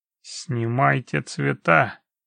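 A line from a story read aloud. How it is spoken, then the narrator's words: Through gritted teeth. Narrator (Russian): процедил Хорн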